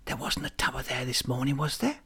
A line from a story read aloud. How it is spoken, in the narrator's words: whispered